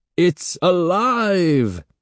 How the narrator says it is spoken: Evan screamed playfully

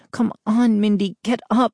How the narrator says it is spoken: I pleaded

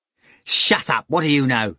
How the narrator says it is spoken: Ivan snapped at Ruekin

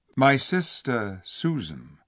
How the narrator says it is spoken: answered Peter shortly and gravely

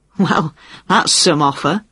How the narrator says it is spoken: Jane laughed

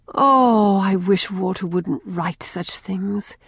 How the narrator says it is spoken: sighed Rilla

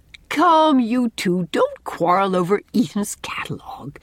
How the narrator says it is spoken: said Anne gaily

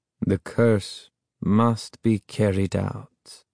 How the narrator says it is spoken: Ahmed said softly again, almost sadly

